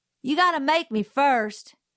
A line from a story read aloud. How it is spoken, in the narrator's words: he yelled